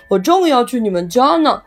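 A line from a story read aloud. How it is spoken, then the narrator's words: Loud call. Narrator (Chinese): 一位叔叔高声冲露露喊道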